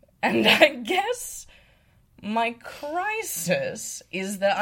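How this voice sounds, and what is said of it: Usual voice. Nothing is said of it.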